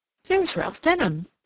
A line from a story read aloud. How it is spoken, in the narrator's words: she exclaimed